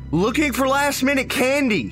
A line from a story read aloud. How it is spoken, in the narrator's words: I shouted back